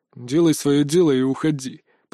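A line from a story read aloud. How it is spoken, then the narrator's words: Through gritted teeth. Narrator (Russian): процедил Крепыш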